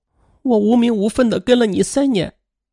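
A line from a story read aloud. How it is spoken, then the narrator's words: Sobbing. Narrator (Chinese): 文婷则紧紧的抱住了他，抽泣着说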